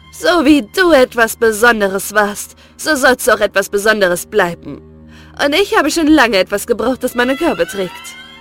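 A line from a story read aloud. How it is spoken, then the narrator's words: Mocking. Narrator (German): hatte sie höhnisch zu ihm gesagt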